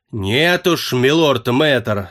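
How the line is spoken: Growled, rudely interrupting. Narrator (Russian): зарычал в ответ на это Прат, с неожиданной бесцеремонностью перебив молодого волшебника

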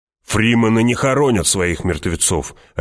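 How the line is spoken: Barking soldier. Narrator (Russian): рявкнул боец

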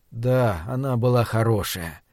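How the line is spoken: Soft, near tears. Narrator (Russian): мягко согласился Джеффри и почувствовал, что у него самого слезы подступают к глазам

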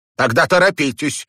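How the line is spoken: Sudden sharp. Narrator (Russian): вдруг резко сказала миссис Керлис

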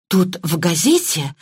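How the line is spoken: Excited, breathless. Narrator (Russian): взволнованно выдохнула Мергатроид

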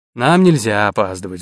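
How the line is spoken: Sighed. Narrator (Russian): вздохнул Арчи

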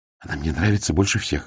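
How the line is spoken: Whispered. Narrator (Russian): шепнул Ларк

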